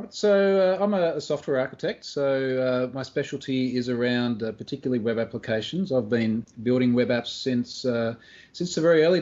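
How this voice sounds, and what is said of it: Australian accent. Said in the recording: “a familiar Australian accent”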